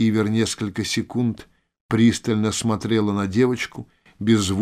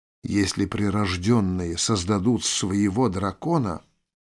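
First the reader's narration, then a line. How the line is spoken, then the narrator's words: Whisper. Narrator (Russian): прошептала Тель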